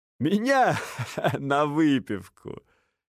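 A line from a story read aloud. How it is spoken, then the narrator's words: Sudden laughter. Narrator (Russian): Неожиданно рассмеялся Винс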